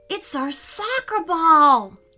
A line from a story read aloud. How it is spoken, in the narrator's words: cried Meelo